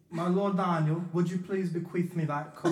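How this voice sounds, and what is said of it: Mock Renaissance lord character voice. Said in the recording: “give a couple voices in there? ... Like an improv mock.”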